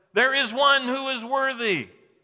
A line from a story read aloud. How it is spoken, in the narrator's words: And then finally a voice shouted